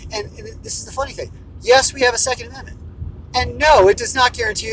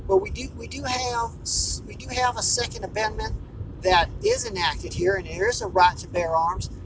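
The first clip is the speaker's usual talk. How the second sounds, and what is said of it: Polite put-on Southern accent. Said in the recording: “in a very nice, polite Southern accent”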